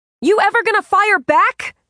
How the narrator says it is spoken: Ray shouted

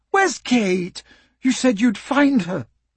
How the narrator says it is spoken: Emma cried

